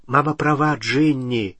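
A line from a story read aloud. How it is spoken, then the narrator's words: Gentle. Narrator (Russian): мягко сказал Билл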